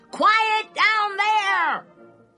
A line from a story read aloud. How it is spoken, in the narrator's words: heard a racket in the night and shouted